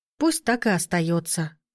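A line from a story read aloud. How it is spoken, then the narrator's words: Sigh. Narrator (Russian): вздохнула я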